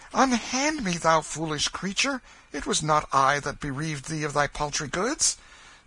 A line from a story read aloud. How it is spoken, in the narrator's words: now and then cried out in vexation